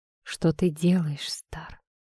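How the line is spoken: Whispered. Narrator (Russian): прошептал я

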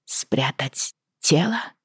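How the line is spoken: Weak questioning voice. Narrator (Russian): переспросила я слабым голосом

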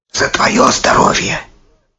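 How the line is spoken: Whisper in ear. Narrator (Russian): Хасров Муйлим шепнул жене на ухо

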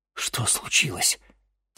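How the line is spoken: Quiet question. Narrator (Russian): тихо спросил чернокнижец

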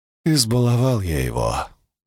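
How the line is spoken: Weary. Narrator (Russian): устало произнес Цицерон

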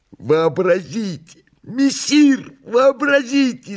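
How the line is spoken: Excited joyful shout. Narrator (Russian): закричал возбужденный радостно Бегемот

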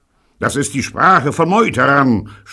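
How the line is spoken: Captain screaming. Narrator (German): schrie der Kapitän

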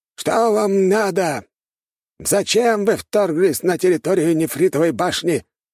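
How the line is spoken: Old man shouting. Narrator (Russian): выкрикнул один из стариков

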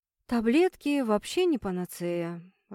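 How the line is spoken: Sighing. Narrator (Russian): вздохнул Стас

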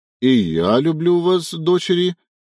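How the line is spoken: Hoarse wheeze. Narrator (Russian): прохрипел Ефим

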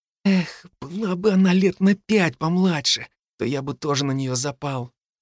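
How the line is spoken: Dreamy whisper. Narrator (Russian): Фил прошептал мечтательно

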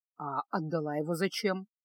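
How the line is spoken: Surprisingly calm question. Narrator (Russian): на удивление спокойно спросил чародей

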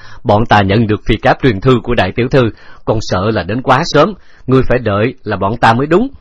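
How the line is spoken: Loud laughing reply. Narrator (Vietnamese): Trần Lão Mưu đang ngồi trên lưng ngựa cười lớn đáp

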